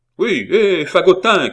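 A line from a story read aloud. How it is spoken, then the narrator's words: Woman shouting. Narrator (French): cria la bonne femme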